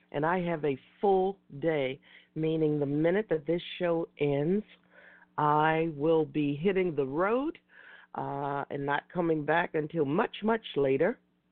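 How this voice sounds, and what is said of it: Slightly raspy voice. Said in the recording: “my voice sounds a little raspy today, it's because I'm a little bit under the weather”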